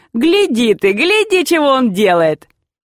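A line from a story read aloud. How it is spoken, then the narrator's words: Loud laughing shout. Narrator (Russian): Изев отец нарочно громко хохотал, вскрикивая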